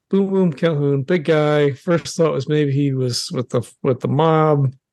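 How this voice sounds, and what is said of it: New York accent. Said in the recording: “I clearly have a New York accent”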